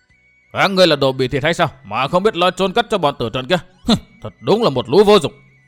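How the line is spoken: Old man shouting again. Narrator (Vietnamese): Lão lại quát

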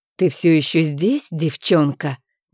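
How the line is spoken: Displeased hiss. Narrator (Russian): недовольно прошипела

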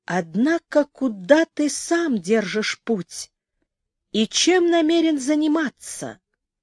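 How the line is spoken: Slow, stammering. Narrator (Russian): медленно проговорил, заикаясь

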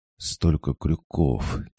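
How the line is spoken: Quiet whisper. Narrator (Russian): тихо шепнула Илюха

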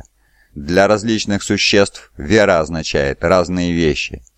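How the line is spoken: Plain. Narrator (Russian): сказал Аргилтал

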